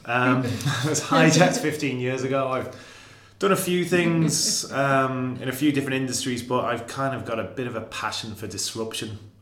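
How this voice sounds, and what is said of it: Non-Irish accent. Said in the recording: “I'm in Ireland 15 years, despite the accent.”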